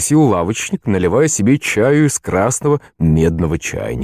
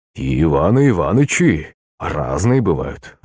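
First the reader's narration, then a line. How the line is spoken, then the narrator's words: Shopkeeper's sigh. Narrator (Russian): вздохнул лавочник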